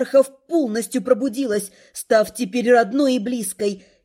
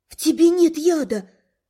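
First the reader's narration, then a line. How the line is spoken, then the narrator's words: Shocked breathless exhale. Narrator (Russian): С потрясением выдохнула я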